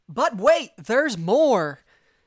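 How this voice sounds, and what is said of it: Infomercial announcer voice. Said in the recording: “do my best infomercial voice.”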